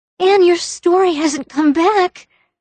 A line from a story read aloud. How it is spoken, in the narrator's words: cried Diana incredulously